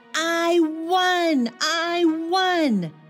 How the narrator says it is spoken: shouted

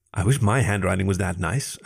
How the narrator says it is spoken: Anna said

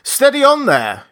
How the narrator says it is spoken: cried in a tone of remonstrance

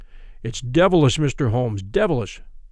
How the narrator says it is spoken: cried Mortimer Tregennis

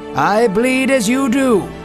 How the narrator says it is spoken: Paul yelled

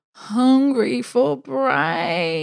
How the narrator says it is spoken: He did mutter softly

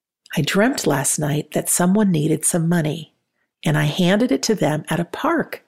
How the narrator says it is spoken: she said

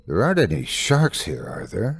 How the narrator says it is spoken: I asked Daniela, trying to keep my voice as calm as possible

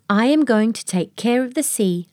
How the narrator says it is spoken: Luna exclaimed

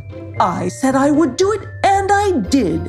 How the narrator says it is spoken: shouted Lemmy Try from high above

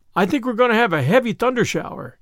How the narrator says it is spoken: she exclaimed in dismay

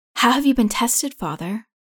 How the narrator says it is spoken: asked, her voice low and husky

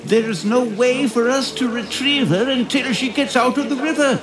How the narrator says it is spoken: yelled another

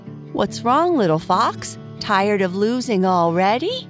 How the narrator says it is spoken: Red said in a teasing tone

